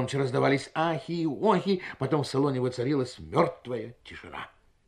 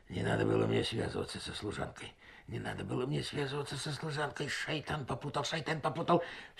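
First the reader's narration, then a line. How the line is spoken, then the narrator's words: Muttered. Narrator (Russian): Хаджи Осман Баюр бормотал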